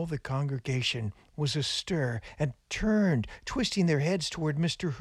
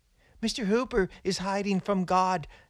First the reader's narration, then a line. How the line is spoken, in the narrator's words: cried a boy